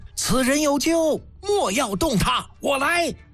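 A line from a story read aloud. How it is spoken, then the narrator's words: Loud sudden shout. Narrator (Chinese): 嬴柱不禁一声高喊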